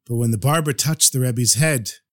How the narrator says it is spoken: he sighed

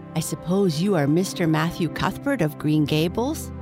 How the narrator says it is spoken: said in a peculiarly clear, sweet voice

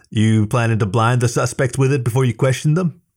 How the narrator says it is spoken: She laughed

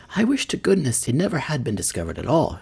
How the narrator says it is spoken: she exclaimed

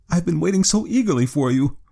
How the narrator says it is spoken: she cried

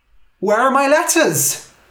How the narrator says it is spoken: I cried

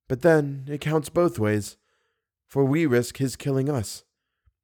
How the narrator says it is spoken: she added in a dull voice

